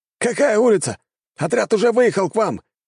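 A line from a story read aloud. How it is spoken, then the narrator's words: Shouting into microphone. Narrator (Russian): кричал один из операторов в микрофон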